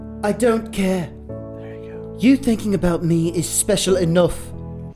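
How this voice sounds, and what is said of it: Manly, brutish voice for female character. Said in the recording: “That's a manly accent there ... a brute force”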